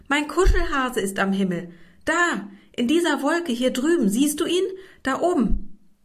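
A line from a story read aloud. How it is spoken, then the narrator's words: Excited shout. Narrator (German): rief mit aufgeregter Stimme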